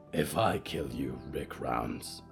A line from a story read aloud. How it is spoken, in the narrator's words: Yuretsi growled